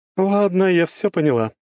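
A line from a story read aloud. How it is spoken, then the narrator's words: Laughing. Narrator (Russian): рассмеялась Круанна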